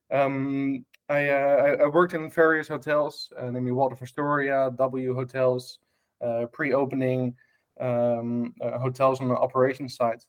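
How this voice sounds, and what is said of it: Dutch accent. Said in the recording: “back in Amsterdam in Holland, hence my strange accent.”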